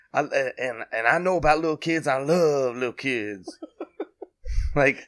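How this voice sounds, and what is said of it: Imitates another person's voice. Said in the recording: “your go-to Biden accent ... impression”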